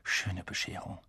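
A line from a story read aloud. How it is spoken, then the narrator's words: Quiet. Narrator (German): sagte Harry leise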